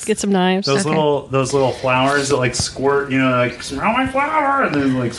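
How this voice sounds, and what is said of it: Scary clown voice. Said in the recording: “doing a scary clown impression”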